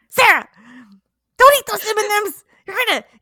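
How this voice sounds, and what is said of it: Scary character voice. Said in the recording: “did that voice just scare me legitimately? ... that voice gave me anxiety”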